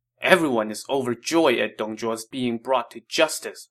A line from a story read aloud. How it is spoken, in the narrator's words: Wang Yun said angrily